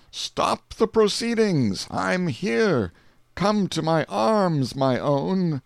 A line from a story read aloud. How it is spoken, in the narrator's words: exclaimed